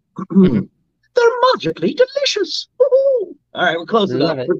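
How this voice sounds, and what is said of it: Cartoon leprechaun character voice. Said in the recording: “Lucky from Lucky Charms ... let's see if I can do it, because again, my voice is kind of shot.”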